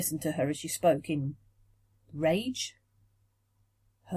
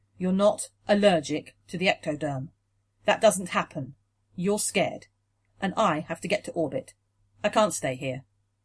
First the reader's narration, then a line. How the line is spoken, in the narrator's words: he said, sadly but firmly